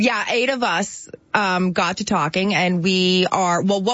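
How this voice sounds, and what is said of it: Usual voice. Nothing is said of it.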